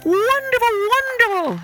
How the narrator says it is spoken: shouted everyone

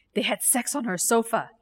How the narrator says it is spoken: Geeta whispered

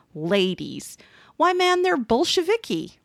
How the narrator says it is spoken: a guard snorted

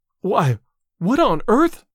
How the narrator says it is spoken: panted Miss Ives

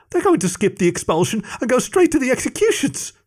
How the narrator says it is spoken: sputtered Greg

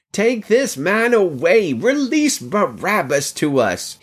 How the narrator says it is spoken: they all cried out together

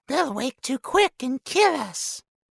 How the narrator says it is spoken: whined Smeagol in a last effort

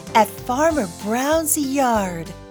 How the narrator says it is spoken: said the wolf

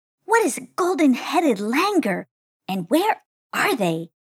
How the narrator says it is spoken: asked Shoutin, with an air of intrigue in her voice

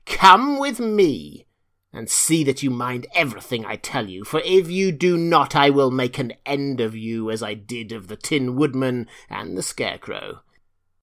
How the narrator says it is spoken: Then she said to Dorothy, harshly and severely

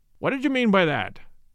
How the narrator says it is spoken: he said sharply

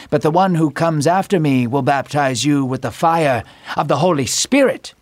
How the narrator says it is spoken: John said calmly

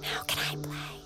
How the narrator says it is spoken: to whisper

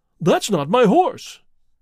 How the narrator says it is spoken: cried

